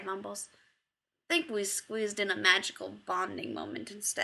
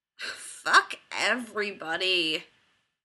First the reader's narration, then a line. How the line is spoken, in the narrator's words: Chad grumbles